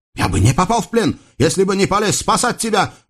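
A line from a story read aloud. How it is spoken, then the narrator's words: Heated shout. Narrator (Russian): в запале выкрикнул Юсуф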